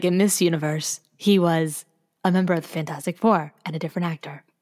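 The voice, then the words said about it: Jeffrey Wright impression as the Watcher. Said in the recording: “You sound just like him. ... I do the best Jeffrey Wright impression.”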